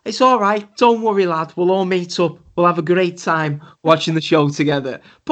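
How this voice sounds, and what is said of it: Welsh accent impression. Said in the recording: “Who was the Welshman you were just doing an impression of there? ... I was doing an impression.”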